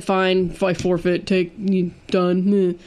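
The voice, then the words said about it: Imitates another person's voice. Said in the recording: “It sounds just like me. ... my impression ... impeccable? ... Your impersonation's terrible.”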